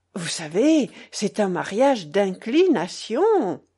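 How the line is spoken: Delighted women exclaiming. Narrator (French): s'écriaient ces dames d'une voix ravie

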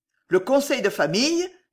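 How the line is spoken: Uncontrolled outburst. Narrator (French): s'écria Roger, incapable de se maîtriser

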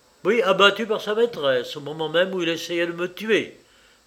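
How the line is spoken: Hateful exclamation. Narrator (French): s'exclama Paul, que la haine emportait de nouveau

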